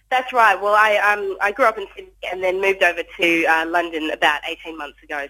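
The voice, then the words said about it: Australian accent. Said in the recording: “we might be able to tell your accent slightly there from Australia”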